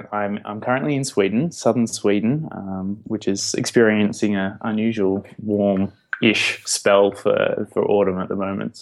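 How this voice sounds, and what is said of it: Australian accent. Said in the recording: “wonderful Australian ... despite the accent”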